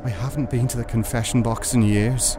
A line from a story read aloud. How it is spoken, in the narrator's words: whispers